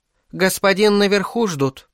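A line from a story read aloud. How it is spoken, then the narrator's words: Timid young woman. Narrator (Russian): робко проговорила тощая носатая девка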